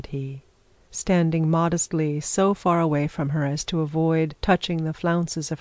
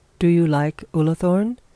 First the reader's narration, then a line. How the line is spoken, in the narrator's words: said Mr